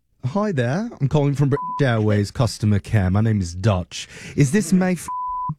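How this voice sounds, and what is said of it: Bad put-on British accent. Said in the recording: “my absolute worst British accent”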